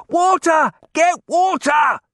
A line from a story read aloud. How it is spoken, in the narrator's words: someone shouted